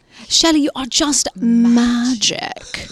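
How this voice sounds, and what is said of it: Put-on British accent. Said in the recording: “remember the other British accent?”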